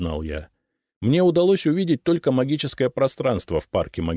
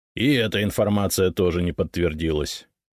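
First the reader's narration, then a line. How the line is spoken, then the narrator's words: Dry, curt. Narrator (Russian): сухо сказал Фискалов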